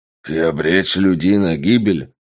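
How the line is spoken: Growling cyborg. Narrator (Russian): рыкнул киборг

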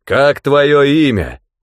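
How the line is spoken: Rider's booming voice. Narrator (Russian): прогремел голос всадника

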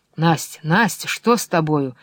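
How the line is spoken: Warmly concerned question. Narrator (Russian): спросил он с живым участием

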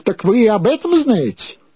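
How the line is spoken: Exclaiming. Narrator (Russian): воскликнул

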